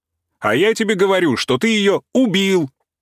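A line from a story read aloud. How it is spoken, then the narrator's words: Heated, excited shouting. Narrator (Russian): азартно кричал Игнатий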